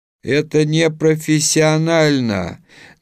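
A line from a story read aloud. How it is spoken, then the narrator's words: Deliberately loud. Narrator (Russian): нарочито громко, чтобы услышал не только Лобановский, но и те, кто хихикал за его спиной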